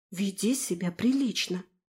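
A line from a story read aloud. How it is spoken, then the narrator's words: Quiet. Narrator (Russian): тихо сказала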